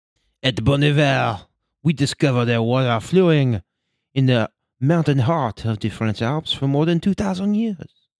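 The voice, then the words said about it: Bad put-on French accent. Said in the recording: “my bad French accent”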